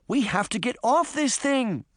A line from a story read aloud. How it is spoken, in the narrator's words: Sabrina cried